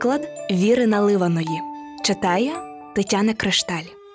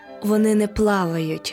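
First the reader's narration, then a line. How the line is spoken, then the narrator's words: Plain. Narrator (Ukrainian): відповіла черепашка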